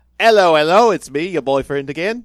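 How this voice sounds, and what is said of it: Put-on British accent. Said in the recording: “Can you do that again, but with a British accent?”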